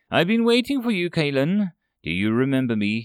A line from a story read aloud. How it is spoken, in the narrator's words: asked with a sneer